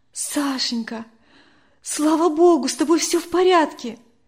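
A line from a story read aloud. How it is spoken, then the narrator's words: Exclaiming. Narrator (Russian): воскликнула Надя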